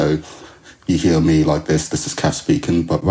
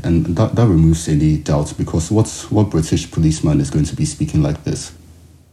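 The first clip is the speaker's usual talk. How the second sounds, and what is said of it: Put-on Nigerian accent. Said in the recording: “a bunch of Nigerian fraudsters ... I changed my accent ... right now, I'm speaking like Olatunde”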